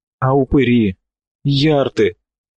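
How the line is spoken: Groaning. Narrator (Russian): Говоруха застонал

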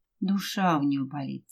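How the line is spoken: Quiet. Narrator (Russian): тихо сказала Ася

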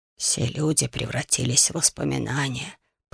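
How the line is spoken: Whisper. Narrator (Russian): прошептал другой мудрец

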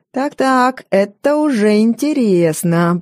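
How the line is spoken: Drawl. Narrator (Russian): протянул он

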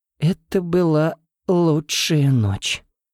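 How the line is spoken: Languid moan. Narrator (Russian): томно простонала девушка

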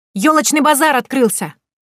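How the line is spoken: Ringing shout. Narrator (Russian): Прошка звонким голосом крикнул

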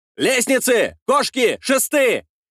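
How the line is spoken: Shouting. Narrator (Russian): кричал я

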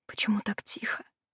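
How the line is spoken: Whisper. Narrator (Russian): прошептала я

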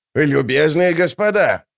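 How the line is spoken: Shouting out. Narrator (Russian): выкрикнул Круп

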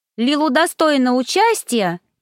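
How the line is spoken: Shout overcoming shyness. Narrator (Russian): переборов свою робость, крикнула Лайза

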